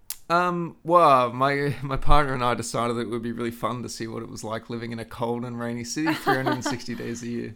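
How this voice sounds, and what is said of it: Noticeable non-local accent. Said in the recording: “You obviously have an accent.”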